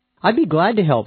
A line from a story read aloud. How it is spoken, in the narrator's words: said the woman